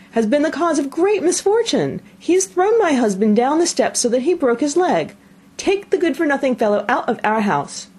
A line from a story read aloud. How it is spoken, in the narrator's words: cried she